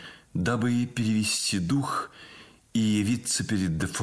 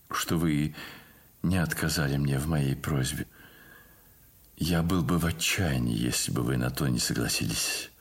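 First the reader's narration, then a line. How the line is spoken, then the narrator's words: Quiet, sad. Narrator (Russian): сказал он ей тихим и печальным голосом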